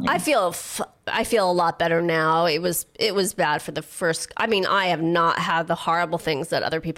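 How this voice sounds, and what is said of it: Sickly-sounding voice. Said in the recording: “I sound pretty sickly”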